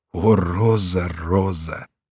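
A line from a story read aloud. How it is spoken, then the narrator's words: Exclaiming. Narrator (Russian): Корнелий вскричал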